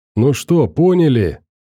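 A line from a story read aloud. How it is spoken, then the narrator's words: Shouted. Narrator (Russian): выкрикнул Кипа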